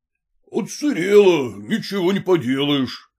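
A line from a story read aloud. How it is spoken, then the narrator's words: Deep bass defensive shouting. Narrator (Russian): басом кричал студент Блинков в свое оправдание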